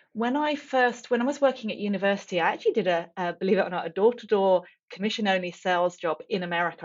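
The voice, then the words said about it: English accent. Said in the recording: “I grew up in England, as you can probably tell from the accent.”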